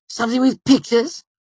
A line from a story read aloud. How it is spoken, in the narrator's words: Ambrose spat